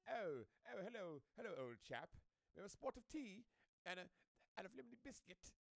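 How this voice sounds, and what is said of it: Mock posh English accent. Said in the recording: “that English accent ... Talking like your name is Frederick”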